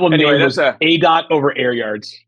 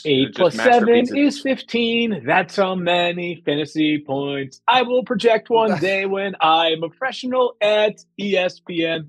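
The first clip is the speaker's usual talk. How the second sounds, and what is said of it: Sings, imitating another person's voice. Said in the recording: “That was my impersonation of what Mike was probably singing about back then.”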